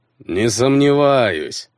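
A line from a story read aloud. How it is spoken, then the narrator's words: Laughing. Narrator (Russian): рассмеялся ярл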